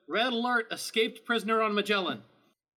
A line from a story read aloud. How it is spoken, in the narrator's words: Defender East yells into it